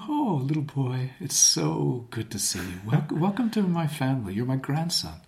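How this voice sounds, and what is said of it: Gentle, smiling, flowing voice for children. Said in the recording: “a voice we use when we're talking to children ... there's a lot of fluidity in that ... That's a good radio voice ... A morning radio ... you can hear that you're smiling. You can hear your smile ... There's a gentleness to it ... A bit delicate ... it flows like water, up and down ... it's got lots more motion”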